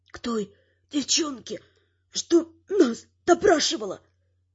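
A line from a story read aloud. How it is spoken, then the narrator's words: Whisper through split lips. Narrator (Russian): прошептал разбитыми губами один из магов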